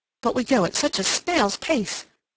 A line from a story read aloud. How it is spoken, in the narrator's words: said Sally, shaking her head impatiently